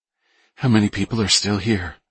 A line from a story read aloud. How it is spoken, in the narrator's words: she asked anxiously